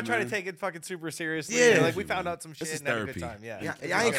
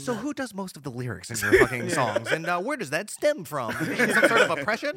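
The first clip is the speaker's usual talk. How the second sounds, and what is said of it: Public radio interviewer voice. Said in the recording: “That was good NPR voice right there.”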